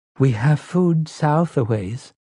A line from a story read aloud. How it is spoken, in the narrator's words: Zelia said timidly